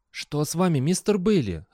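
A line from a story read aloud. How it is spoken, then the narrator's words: Confused question. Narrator (Russian): растерянно спросил Фастельф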